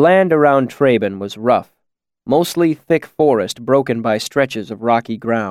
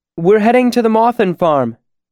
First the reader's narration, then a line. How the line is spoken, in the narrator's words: Denna called out as he came closer